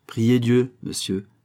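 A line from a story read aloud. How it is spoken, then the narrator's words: Plain. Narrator (French): répondit une voix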